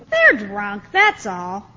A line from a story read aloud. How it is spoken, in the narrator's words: others in the crowd were mocking